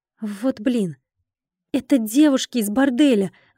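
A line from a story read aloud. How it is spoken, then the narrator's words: Exclaiming. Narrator (Russian): воскликнула я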